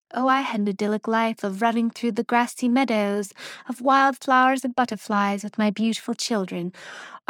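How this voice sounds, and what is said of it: Put-on British accent. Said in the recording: “I don't know why I made a British accent for that”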